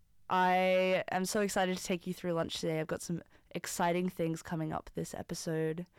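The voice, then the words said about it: Rough, hoarse voice. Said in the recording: “I sound a bit rough around the edges. I lost my voice”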